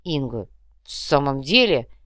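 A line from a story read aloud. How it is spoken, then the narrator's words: Grumbled. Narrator (Russian): пробурчал брат Ляпсус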